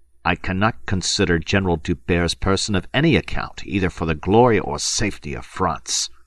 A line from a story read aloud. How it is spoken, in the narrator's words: he snapped viciously